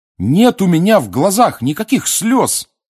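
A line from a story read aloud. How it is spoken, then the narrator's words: Shout. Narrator (Russian): крикнул Гарри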